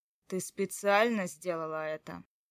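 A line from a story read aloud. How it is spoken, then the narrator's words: Threatening, through teeth. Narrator (Russian): спросил Матвей с угрозой, сквозь зубы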